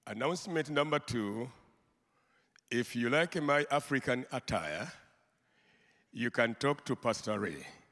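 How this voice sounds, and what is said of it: Very strong accent. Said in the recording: “my accent is very, very, very deep. So you have to be very attentive.”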